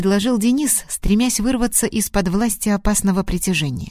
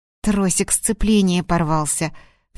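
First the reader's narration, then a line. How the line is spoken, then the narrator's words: Exasperated outburst. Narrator (Russian): в сердцах бросил Денис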